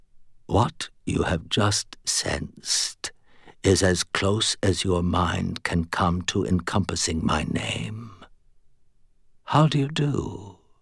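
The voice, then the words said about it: Low, calm whispered British accent. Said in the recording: “it whispered, in a perfectly low, calm British accent”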